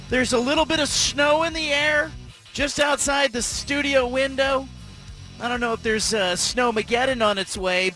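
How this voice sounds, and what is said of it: Sick, under-the-weather voice. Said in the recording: “you can tell from my voice, I'm not at 100%... I got what the kids had last week”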